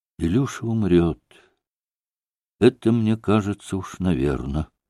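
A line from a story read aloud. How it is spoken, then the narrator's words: Sad. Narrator (Russian): грустно ответила Леша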